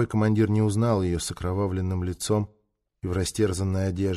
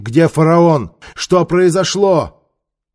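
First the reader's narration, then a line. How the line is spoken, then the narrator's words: Shouting. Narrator (Russian): Гессерет крикнул одному из них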